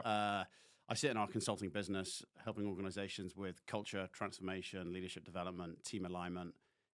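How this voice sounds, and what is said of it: English Devon accent. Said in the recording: “your accent would suggest you're not from those parts ... The Devon dialogue is still, or dialect, I should say, is still there.”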